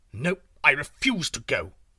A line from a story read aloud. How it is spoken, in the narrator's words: snapped the tiger